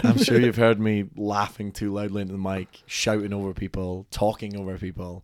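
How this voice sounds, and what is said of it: Speaker's own accent. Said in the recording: “I'm blaming the accent for that”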